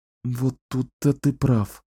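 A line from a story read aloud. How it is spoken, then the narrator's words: Sighing. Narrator (Russian): вздохнула Кэлен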